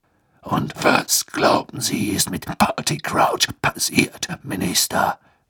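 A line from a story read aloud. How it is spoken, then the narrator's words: Growling voice. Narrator (German): ertönte Moodys knurrende Stimme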